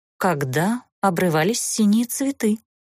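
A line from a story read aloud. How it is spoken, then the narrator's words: Enigmatic offhand remark. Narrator (Russian): Загадочно обронил полуэльф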